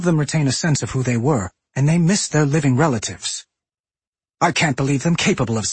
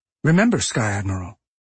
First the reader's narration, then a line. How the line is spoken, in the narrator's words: Anduin said, his voice still kind